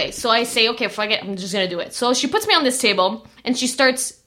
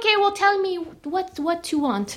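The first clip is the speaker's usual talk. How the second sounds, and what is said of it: Poor imitation Chinese accent. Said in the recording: “This is my Chinese accent. I suck at it.”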